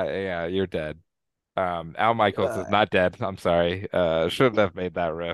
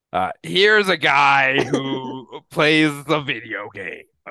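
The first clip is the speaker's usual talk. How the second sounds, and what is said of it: Imitates another person's voice. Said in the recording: “my John Madden impression”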